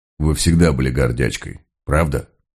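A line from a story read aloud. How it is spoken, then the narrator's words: Dull, muffled voice. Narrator (Russian): Она поправила его глухим голосом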